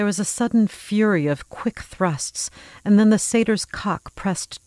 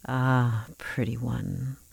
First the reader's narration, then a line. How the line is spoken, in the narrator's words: the voice rumbled